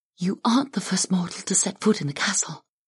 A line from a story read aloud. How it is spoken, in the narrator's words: Zan replied in a hushed tone